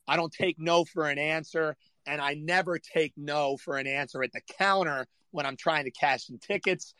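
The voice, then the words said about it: Hoarse, strained voice. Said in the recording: “I'm battling losing my voice. ... as you can tell, I've just been screaming at these kids”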